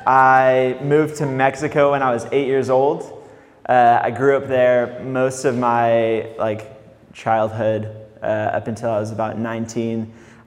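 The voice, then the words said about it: Somewhat Californian American accent. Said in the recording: “I'm originally from England. I kind of have a California accent.”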